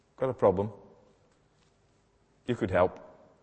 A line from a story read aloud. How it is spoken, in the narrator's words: They could have quite calmly said to Jesus